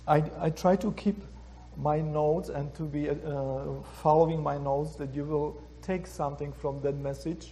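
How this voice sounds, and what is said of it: Strong non-native English accent. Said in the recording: “when I was here for a very short time in the United States, I learned slowly and improve every year ... my pronunciation and my accent, you can get lost very easy”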